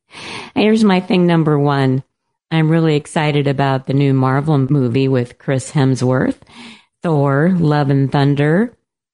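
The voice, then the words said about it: Voice off from a cold. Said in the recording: “excuse my voice, folks. I've got a cold, so my voice is a little off today”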